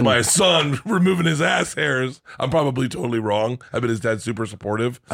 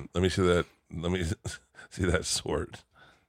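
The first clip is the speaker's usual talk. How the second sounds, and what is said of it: Impression of someone's father. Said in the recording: “Let me do an impression. ... This is my impression of his father.”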